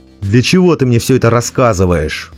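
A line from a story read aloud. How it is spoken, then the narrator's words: Growling. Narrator (Russian): прорычал Сверхнеблин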